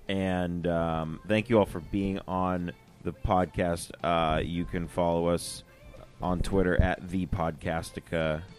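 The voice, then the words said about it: Hoarse, fading voice. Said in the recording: “I'm losing my voice. ... Yeah, I hear you.”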